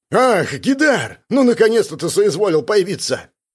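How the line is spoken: Barking. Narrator (Russian): рявкнул он

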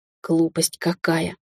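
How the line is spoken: Muttered. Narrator (Russian): пробормотала я

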